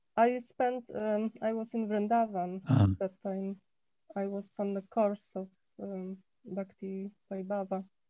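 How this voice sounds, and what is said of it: Sick, weakened voice. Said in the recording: “I'm a little sick, so I'm sorry my voice is not so good, maybe.”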